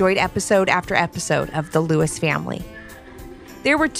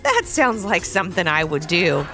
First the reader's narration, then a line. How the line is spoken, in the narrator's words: laughed Levi